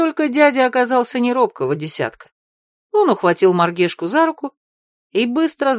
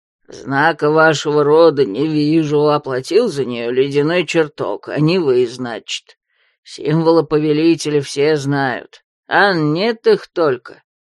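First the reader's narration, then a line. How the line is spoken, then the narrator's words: Gruff mutter. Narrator (Russian): буркнул он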